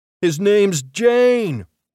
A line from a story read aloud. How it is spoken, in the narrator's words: he hollered to the throng